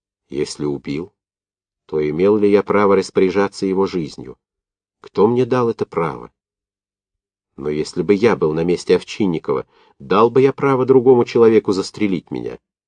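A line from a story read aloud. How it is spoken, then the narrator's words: Light, calm. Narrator (Russian): легко и спокойно ответил сам за себя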